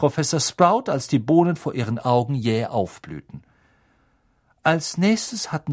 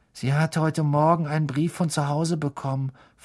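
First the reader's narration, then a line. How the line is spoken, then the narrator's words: Whisper. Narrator (German): flüsterte Parvati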